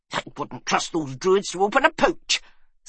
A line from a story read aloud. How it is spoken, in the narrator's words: snapped Magrig